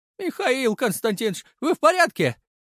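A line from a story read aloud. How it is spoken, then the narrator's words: Frightened merchant blurting. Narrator (Russian): испуганно выпалил торговец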